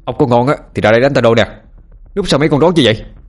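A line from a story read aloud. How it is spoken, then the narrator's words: Yelling. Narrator (Vietnamese): Tôi gào lên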